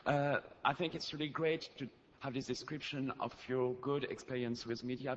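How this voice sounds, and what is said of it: French accent in English. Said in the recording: “my French accent.”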